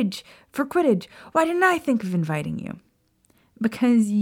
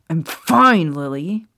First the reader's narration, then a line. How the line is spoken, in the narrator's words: Snape snapped at her angrily